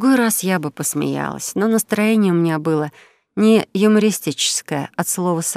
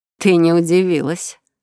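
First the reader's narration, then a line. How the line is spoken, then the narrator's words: Chuckling laugh. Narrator (Russian): снова хохотнула Шаенна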